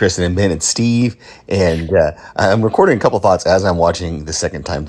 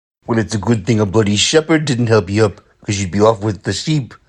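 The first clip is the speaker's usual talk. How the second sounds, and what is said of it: Poor attempt at Scottish accent. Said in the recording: “I can't do a Scottish accent. ... Not at all.”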